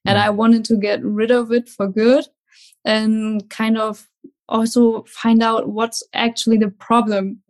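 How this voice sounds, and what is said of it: German accent. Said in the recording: “you have an amazing accent ... I'm from Germany”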